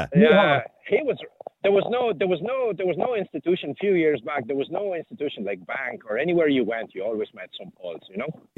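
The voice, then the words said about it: Polish accent. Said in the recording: “I detect an accent. You're not Polish by any stretch of the imagination, are you? ... I kind of thought it was an accent”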